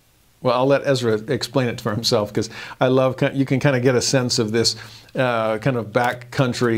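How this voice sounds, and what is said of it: Usual voice. Nothing is said of it.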